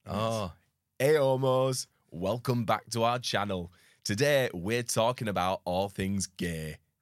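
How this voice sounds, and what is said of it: Put-on Northern Yorkshire farmer accent. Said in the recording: “speak in a Yorkshire accent ... Me if I was a northerner. It's very middle-aged man, farmer. Northern Yorkshire farmer, I think.”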